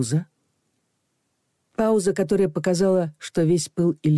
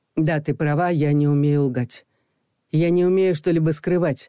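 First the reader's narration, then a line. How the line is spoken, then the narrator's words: Through gritted teeth. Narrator (Russian): произнес он сквозь зубы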